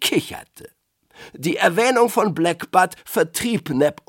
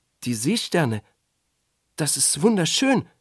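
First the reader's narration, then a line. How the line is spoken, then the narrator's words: Stammering. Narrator (German): stammelte Neb Omek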